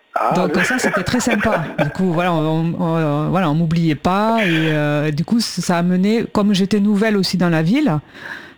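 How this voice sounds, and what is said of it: Mild southwestern French accent. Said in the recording (French): “mon accent... je suis allée du Gers à Blois, alors là, j'avais l'accent à fond. Maintenant, je l'ai on pourrait croire que je l'ai encore, mais je l'ai beaucoup moins qu'avant”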